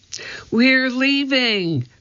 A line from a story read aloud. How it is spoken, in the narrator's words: cried Annie